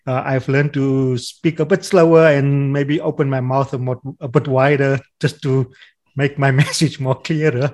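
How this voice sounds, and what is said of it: South African accent. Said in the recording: “my South African accent ... people do understand my accent”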